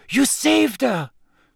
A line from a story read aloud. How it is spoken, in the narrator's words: she said breathlessly